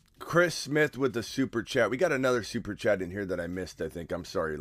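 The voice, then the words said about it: Hoarse, congested voice. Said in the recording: “the congestion, oh my God. ... Totally lost my voice.”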